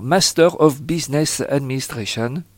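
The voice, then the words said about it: French-accented English words. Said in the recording (French): “pardonnez-moi mon accent”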